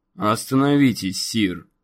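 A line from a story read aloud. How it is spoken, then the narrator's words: Plain. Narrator (Russian): сказал один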